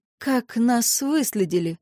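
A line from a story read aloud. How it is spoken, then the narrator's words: Hoarse exhaled words. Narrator (Russian): выдохнула хрипло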